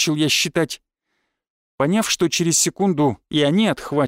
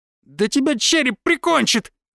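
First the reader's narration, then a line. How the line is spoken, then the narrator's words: Shriek from darkness. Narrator (Russian): взвизгнул кто-то из темноты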